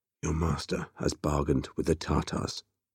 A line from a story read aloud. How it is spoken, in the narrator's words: Temujin said softly